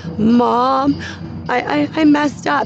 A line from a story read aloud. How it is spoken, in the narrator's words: she's sobbing and crying